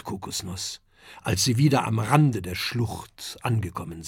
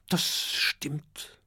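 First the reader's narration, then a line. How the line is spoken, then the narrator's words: Sad murmur. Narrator (German): murmelt Oskar traurig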